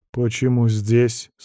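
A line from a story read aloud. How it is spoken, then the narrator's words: Plain. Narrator (Russian): спросил я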